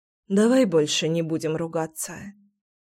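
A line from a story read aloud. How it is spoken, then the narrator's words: Exhaled. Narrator (Russian): выдохнула я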